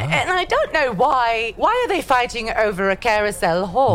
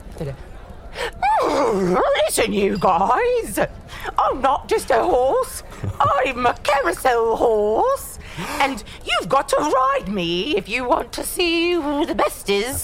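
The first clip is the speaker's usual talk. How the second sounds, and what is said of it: Silly horse character voice. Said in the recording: “should I do a horse voice? ... I think so.”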